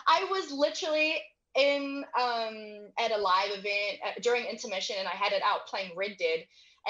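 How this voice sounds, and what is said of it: Speaker's own noticeable accent. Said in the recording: “my accent ... people make fun of my accent”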